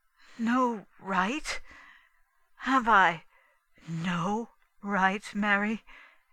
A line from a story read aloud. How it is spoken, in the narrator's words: he said unsteadily